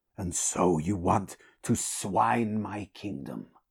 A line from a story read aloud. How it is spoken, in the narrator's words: rasped Conan